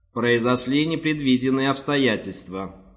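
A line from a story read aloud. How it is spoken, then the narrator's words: Plain robotic voice. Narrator (Russian): сказал робот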